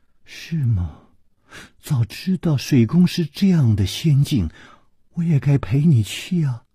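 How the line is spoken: Soft sighing. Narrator (Chinese): 李红秀轻轻地叹了一口气说

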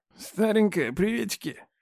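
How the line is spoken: Mocking mutter near ear. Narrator (Russian): Глумливо пробормотали над ухом

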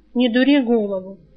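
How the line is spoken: Said wearily. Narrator (Russian): устало сказал Альк

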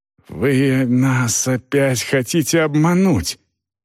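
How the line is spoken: Hissing. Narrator (Russian): наконец прошипел капитан

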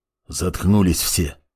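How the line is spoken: Quiet command. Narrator (Russian): тихо скомандовал Канунг

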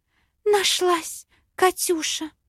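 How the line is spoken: Breathless exhale. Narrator (Russian): Выдохнула брюнетка

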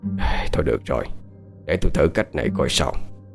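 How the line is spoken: Reluctant quiet sigh. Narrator (Vietnamese): Không đành lòng, cụ Khảm thở dài nói nhỏ

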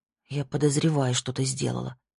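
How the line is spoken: Muttering. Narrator (Russian): пробормотала Ясмин

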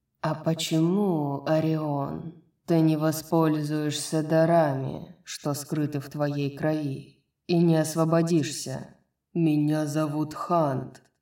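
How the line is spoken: Through gritted teeth. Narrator (Russian): процедил сквозь зубы Хант

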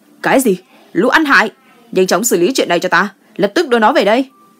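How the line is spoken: Angry shout. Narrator (Vietnamese): Gu Chiyong hét lên

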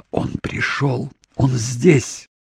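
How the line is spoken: Whisper. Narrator (Russian): Доминик прошептала

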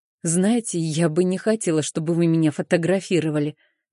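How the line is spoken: Soft, gentle. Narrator (Russian): мягко произнесла я

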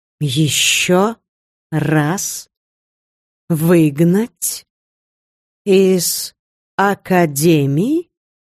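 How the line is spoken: Slow, word by word. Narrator (Russian): произнесла мама по словам

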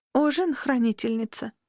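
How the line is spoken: Flat mumble. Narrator (Russian): невыразительным голосом пробормотала служанка

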